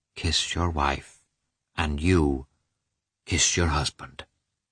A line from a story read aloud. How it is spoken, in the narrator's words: The priest saying softly, with a smile on his kindly mouth